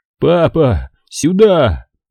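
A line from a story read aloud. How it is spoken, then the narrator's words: Shout. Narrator (Russian): закричал он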